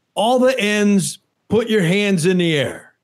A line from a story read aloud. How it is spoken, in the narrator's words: yelling